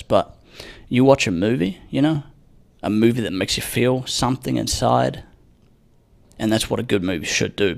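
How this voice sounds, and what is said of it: Hushed, quiet secretive voice. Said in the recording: “I'm going to be talking like a little creepy little secret teller ... I don't want to wake her up. So that's why I'm talking like this.”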